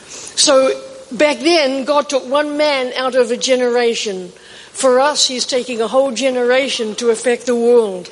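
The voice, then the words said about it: Strong accent, possibly hard to understand. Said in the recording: “If you have trouble with my accent, just ask me or Bobby will translate for you”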